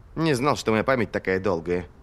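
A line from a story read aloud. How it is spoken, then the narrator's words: Grumbling. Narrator (Russian): проворчал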